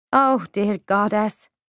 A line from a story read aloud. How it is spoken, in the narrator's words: I groaned